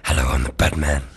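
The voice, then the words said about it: Deep Batman voice. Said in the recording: “Do you think he's going to talk deep as well?”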